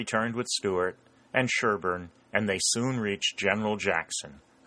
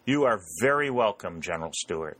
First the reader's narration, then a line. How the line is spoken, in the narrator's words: he said